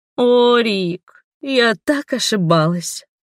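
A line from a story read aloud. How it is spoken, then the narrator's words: Sorrowful sigh. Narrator (Russian): Она горестно вздохнула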